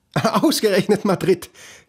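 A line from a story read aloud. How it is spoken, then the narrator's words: Mother laughing while speaking. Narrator (German): seine Mutter sagen und lachen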